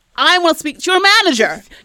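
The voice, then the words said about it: Entitled demanding Karen voice. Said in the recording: “put on my Karen voice”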